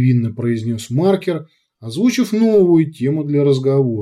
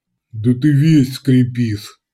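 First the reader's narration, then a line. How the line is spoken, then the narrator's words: Snorting. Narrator (Russian): хмыкнул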